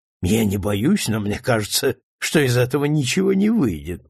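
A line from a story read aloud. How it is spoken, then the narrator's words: Thoughtful mutter. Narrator (Russian): пробормотал задумчиво Амброс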